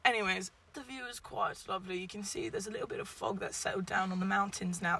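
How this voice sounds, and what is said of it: Put-on accent that keeps shifting. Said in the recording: “this accent's changing very rapidly”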